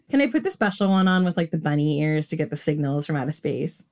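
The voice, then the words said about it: Long Island accent slipping through. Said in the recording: “Did you hear how Long Island I was there? ... I come from Long Island and I've lived in London for a long time. So my accent is all over the place.”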